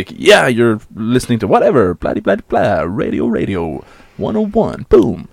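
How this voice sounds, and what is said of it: Put-on radio announcer voice. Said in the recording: “You know this kind of radio voice.”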